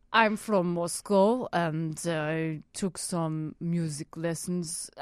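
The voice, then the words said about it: Put-on Russian accent. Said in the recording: “Russian. ... that was I felt like I was there. That was amazing.”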